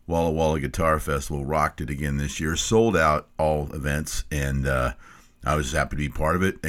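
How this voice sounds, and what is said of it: Rough, worn-out voice. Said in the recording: “My voice is still pretty messed up after a fantastic three-day event”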